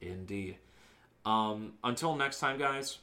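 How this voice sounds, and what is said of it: Usual voice. Nothing is said of it.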